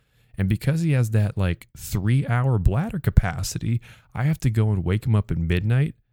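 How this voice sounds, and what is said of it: Whispering. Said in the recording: “the reason I'm whispering right now is because we're setting a hard 9 p.m. bedtime for him.”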